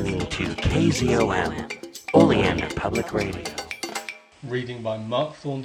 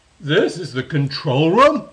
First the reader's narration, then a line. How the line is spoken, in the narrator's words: exclaimed Klee suddenly